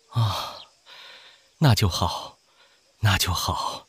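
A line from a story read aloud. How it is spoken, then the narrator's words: Relieved murmur. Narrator (Chinese): 赵太妃一颗心悬在嗓子眼里，此刻才落下来，喃喃道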